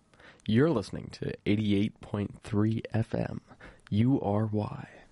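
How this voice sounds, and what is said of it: Polished radio announcer voice. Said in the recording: “It's a really good radio voice.”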